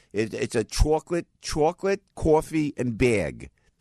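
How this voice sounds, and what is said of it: Exaggerated New Jersey accent. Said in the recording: “My Jersey accent. ... This is my Jersey accent.”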